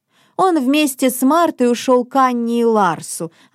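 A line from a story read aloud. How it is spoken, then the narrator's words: Plain. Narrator (Russian): ответил Мартин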